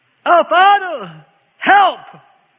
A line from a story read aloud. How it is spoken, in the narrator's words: cried